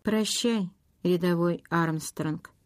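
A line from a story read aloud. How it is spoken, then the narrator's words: Quiet. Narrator (Russian): тихо сказал Ред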